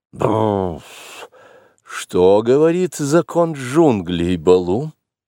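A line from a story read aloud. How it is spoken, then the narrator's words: Grumbling. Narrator (Russian): он проворчал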